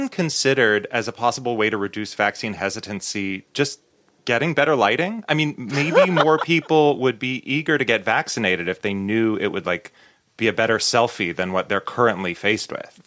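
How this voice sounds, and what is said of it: Newscaster-style delivery. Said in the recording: “using your news voice to make statements like that ... That was your news voice.”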